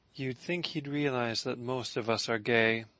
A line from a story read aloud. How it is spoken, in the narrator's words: Lark said softly